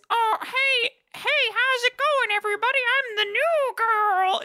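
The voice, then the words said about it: Put-on girly voice. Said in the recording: “girl voice.”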